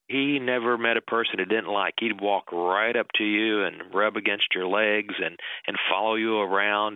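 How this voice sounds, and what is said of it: Kentucky twang. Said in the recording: “As you can hear from his twang, Chris Morris makes Kentucky bourbon.”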